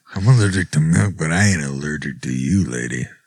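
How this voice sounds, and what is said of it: Seductive voice. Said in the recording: “in a seductive voice?”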